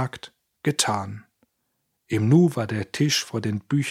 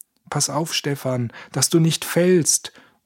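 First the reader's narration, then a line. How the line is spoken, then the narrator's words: Called out. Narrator (German): rief Georg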